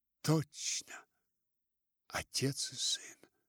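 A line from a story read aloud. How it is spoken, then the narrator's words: Shaken mutter. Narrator (Russian): Мисс Верлок пробормотала побелевшими губами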